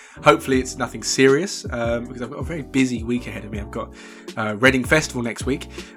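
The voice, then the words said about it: Quieter, sore-throated voice. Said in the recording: “I've got a bit of a sore throat. I don't know if you can tell. So I'm not going to be talking at my normal volume.”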